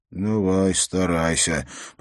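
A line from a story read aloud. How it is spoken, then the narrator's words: Muttering to himself. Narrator (Russian): пробормотал он, обращаясь к самому себе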